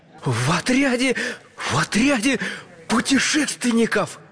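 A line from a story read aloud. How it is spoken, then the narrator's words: Enthusiastic exclamation. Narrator (Russian): с энтузиазмом воскликнул чайный пакетик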